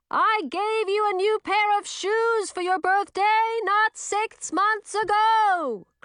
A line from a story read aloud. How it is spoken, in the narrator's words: Chlorine bellowed, looking puzzled